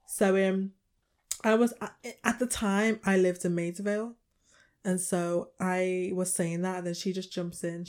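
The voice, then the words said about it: Liverpool accent. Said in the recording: “my accent is usually a conversation starter ... you're not from here. You know, the accent, where's it from? Oh, it's Liverpool.”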